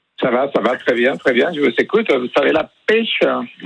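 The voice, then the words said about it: Sing-song Mexican Spanish accent. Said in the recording (French): “un accent de quel... De l'Espagne... Ça vient de Mexico... c'est chantant. C'est le soleil dans la voix”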